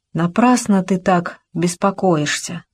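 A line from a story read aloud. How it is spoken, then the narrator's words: Plain. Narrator (Russian): сказала она наконец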